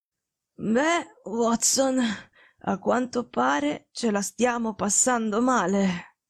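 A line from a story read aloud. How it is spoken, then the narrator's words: Faint, nonchalant voice. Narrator (Italian): disse con voce fievole, ma con un accenno della sua solita noncuranza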